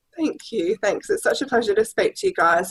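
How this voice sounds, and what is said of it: Australian accent. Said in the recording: “my terrible Australian twang ... a little bit more twang”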